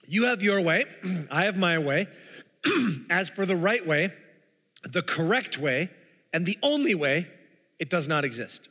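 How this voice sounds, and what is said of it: Slightly hoarse voice. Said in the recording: “my throat is a little hoarse”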